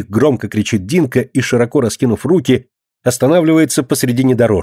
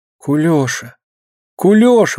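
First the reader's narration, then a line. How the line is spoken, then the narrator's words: Surprised and frightened. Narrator (Russian): удивленно и испуганно повторяет Алина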